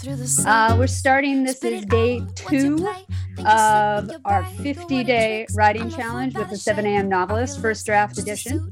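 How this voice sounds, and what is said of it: Hoarse, strained voice. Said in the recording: “I'm already losing my voice,”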